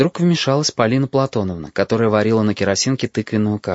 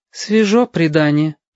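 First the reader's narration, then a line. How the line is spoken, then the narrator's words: Mother sighing. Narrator (Russian): вздохнула мама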